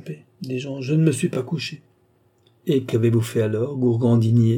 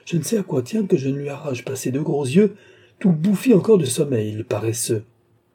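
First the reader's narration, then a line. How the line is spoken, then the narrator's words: Countess exclaiming. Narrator (French): s'écria la comtesse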